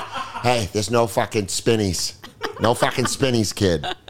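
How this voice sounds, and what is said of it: Imitated Massachusetts accent. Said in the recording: “He's from fucking Massachusetts ... That's so funny, that accent”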